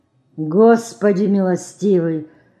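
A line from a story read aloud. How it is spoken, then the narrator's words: Old man groaning. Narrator (Russian): Простонал старик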